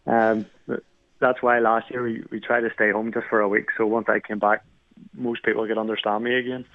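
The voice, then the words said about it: Northern Irish accent with slight Canadian twang. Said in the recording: “born and raised in Belfast ... You're Irish ... I have sort of a little Canadian twang since I've been here”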